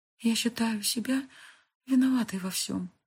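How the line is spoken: Whisper. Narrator (Russian): прошептала Фэй

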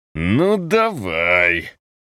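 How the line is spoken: Forced angry growl. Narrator (Russian): прорычал, разгоняя тоску искусственной злостью

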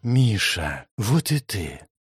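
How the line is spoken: Barely audible whisper. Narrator (Russian): едва слышно прошептала Ариана

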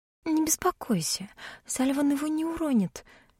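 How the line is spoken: Quiet. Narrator (Russian): тихо сказала Эви

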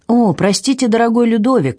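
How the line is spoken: Doctor's exclamation. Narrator (Russian): воскликнул доктор

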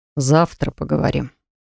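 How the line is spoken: Soft command. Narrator (Russian): умудрился мягко скомандовать он

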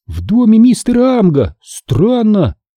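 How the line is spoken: Exclaiming. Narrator (Russian): воскликнула Эмили

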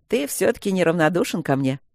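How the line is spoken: Laughing over phone. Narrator (Russian): засмеялся тот в трубку

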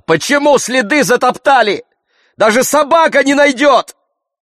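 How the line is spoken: Shout. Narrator (Russian): Я закричал

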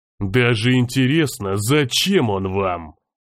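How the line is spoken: Hissed through teeth. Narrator (Russian): Сквозь зубы процедил Грознов

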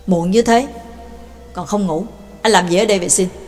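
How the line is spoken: Cold question. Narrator (Vietnamese): Bà Tàng lạnh lùng hỏi

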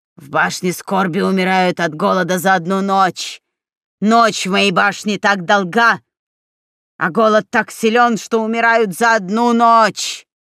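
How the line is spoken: Hoarse male voice. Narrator (Russian): хриплый мужской голос произнес

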